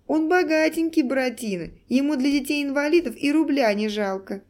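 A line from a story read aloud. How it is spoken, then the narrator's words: Laughing schoolgirl. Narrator (Russian): смеялась какая-то девчонка из средних классов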